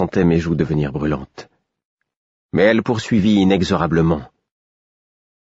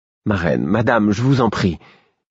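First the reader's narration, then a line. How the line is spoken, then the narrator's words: Imploring tone. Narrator (French): fis-je d'un ton implorant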